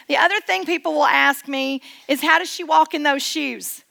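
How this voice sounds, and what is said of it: Subtle East Tennessee accent. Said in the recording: “I'm actually born and raised in East Tennessee... it is a subtly different accent, and you're going to notice it throughout the talk today”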